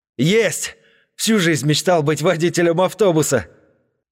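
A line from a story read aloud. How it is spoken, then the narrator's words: Yelling excitedly. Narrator (Russian): заорал Серега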